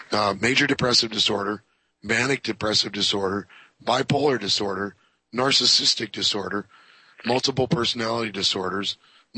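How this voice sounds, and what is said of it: Bad, worn-out sounding voice. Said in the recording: “my voice is really bad right now because I'm pretty beat up”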